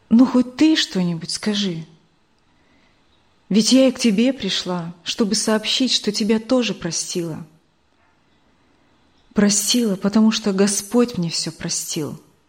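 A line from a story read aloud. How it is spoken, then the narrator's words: Calm speech. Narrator (Russian): спокойно сказала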